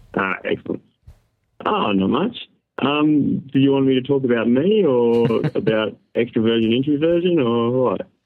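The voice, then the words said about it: Australian accent. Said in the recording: “in Australia. Australia... Oh, I love the accent.”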